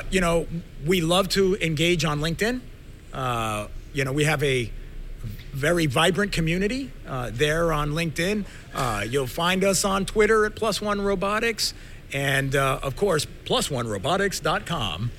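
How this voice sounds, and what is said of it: Polished radio announcer voice. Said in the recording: “nice announcer voice.”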